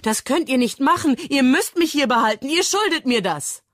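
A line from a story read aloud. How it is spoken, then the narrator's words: Screaming. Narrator (German): schreit Mia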